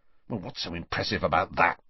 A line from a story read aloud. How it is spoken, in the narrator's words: whispered Ron, who for some reason looked annoyed